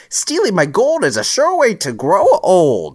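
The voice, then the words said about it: Good impression of the Leprechaun. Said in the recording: “the from Lep ... That was a really good impression.”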